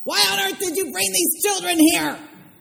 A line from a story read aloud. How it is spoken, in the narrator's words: Miss Whitaker shouted